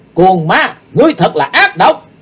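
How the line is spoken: Loud shout. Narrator (Vietnamese): Chí Tôn quay lại thét lớn

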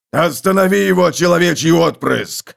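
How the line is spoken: Yelling. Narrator (Russian): завопил Готрек

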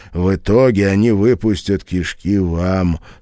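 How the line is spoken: Calm remark. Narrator (Russian): спокойно заметил Пол

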